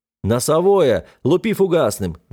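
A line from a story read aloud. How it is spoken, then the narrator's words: Shouting into intercom. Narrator (Russian): закричал я в переговорное устройство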